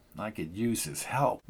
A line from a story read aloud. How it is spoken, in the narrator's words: mumbled Andy